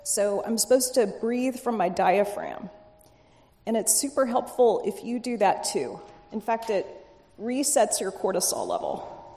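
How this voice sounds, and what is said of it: Slightly hoarse voice. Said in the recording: “my voice is a little hoarse”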